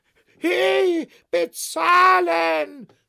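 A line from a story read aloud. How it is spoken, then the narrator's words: Shout. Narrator (German): schrie der Verkäufer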